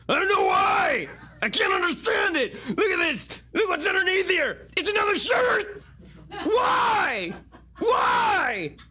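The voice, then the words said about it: Shouty imitation of another person's voice. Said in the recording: “Alex Jones ... Jones impersonation ... more Jenk-like than Alex Jones-like”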